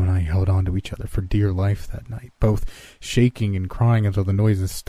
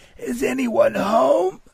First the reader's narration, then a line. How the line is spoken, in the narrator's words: now through tears, the voice yelled